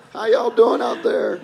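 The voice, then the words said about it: Imitates another person's voice. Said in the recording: “my Christopher Walken impression? ... That's really good.”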